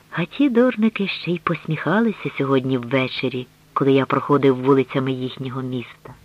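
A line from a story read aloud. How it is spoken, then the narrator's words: Whisper. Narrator (Ukrainian): Він прошепотів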